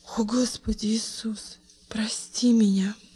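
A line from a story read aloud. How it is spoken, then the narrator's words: Sudden whisper. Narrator (Russian): прошептала она вдруг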